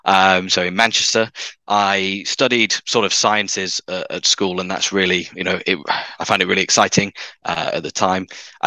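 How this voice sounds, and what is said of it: Northern English accent. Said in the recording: “I grew up in the north of England, as some of your listeners may be able to tell from my accent.”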